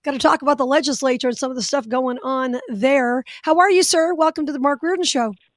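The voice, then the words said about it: Slightly hoarse voice. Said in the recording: “if I sound a little hoarse ... I think it's allergies ... I feel like I sound hoarse”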